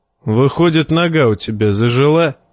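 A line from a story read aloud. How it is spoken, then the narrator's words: Wry snort. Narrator (Russian): хмыкнул Ноя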